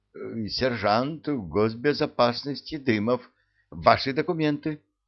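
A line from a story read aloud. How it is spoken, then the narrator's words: Hesitant, stammering. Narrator (Russian): видимо, сомневаясь, запинаясь, произнес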